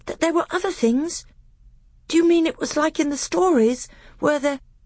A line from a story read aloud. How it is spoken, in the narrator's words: gasped